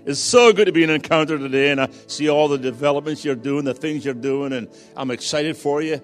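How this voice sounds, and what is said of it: Foreign accent. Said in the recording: “you're used to foreign accents, obviously, so you'll attune yourself to my accent”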